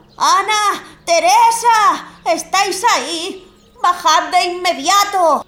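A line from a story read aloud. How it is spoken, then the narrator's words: Angry shouting. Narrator (Spanish): gritaba Mike, que por la forma en la que lo hacía parecía estar bastante enfadado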